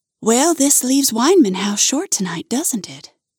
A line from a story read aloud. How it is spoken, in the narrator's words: You sigh